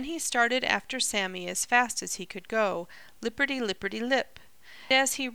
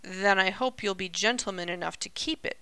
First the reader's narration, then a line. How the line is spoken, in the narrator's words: grumbled Sammy, looking not at all pleased